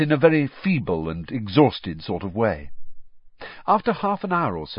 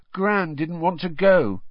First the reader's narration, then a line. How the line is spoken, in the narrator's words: said miserably